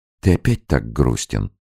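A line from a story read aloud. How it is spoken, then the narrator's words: Gentle question. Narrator (Russian): ласково спросила Екатерина Николаевна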